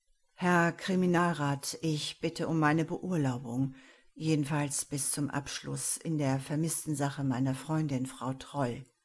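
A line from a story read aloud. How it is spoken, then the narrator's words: Almost toneless. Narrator (German): klang es fast tonlos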